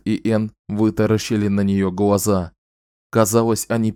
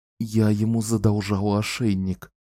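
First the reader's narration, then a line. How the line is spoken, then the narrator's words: Muttered. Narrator (Russian): пробормотала Энн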